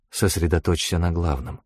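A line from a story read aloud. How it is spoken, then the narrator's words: Whisper. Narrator (Russian): шепнула Анхель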